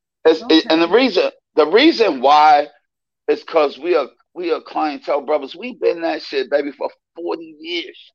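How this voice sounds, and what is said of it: Emotional, tearful voice. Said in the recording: “I get emotional ... I hate to be crying and shit, but I can't control that”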